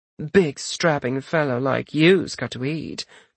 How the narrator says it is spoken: the vendor purred

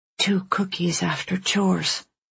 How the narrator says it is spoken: Alice mumbled

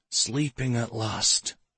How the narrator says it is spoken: he whispered back

